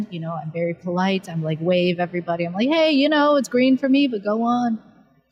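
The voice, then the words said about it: American Pacific Northwest accent. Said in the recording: “I have an American accent ... I was Pacific Northwest, so you know, I had a very proper, polite accent.”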